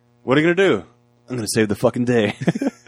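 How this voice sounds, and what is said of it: Imitates another person's voice. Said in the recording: “You did a really good accent of, whatever his name is.”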